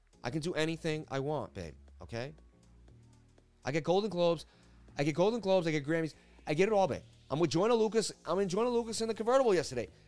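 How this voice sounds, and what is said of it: Mark Wahlberg impression. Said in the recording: “always got to do a Marky impression”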